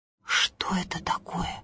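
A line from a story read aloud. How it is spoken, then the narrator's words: Rustling whisper. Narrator (Russian): зашептали колосья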